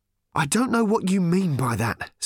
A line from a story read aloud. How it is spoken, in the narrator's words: said Arthur, panting and hurting